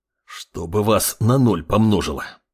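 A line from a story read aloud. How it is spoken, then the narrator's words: Man hissing. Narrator (Russian): прошипел мужчина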